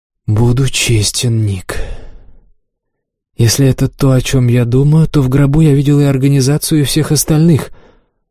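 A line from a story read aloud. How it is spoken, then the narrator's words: Sighing. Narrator (Russian): Моралес вздохнул и сказал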